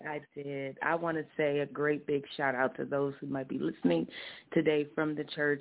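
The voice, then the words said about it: Hoarse voice. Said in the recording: “I'm a bit hoarse, but I'm smiling.”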